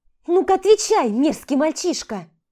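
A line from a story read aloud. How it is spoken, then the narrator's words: Shrieking. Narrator (Russian): Взвизгнула Влада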